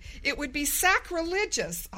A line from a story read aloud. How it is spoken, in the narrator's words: spluttered